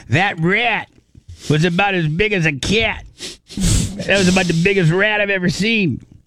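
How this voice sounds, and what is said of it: Put-on New York accent. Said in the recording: “I can't do my very good New Yorker accent... Oh, that sounded perfect, dude... That's not my Greg Deagle impersonation. I'm not very good at it.”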